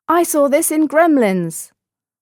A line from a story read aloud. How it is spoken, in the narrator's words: another one yelled